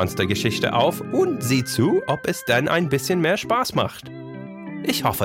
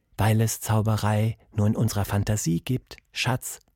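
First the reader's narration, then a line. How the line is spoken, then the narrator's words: Soft whisper. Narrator (German): flüsterte leise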